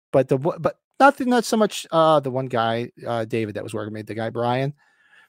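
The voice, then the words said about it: Northern New Jersey accent. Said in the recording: “my accent, which is like Jersey, northern New Jersey”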